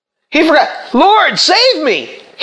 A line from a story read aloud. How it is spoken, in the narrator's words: he screams